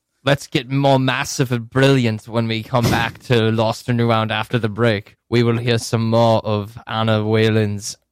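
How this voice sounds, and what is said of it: Wavering put-on British Isles accent. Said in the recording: “What accent is that? ... He's working on it, man. ... It's a work in progress. ... I feel like it's floating between the islands.”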